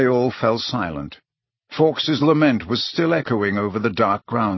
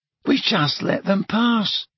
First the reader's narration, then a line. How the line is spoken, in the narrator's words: said Tonks in a hollow voice